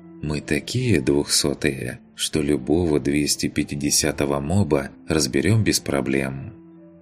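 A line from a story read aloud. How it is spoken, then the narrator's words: Calm explanation. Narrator (Russian): спокойно пояснил разбойник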